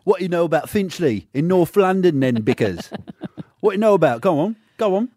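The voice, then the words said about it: Put-on North London accent. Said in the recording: “Can you take us there with an accent?”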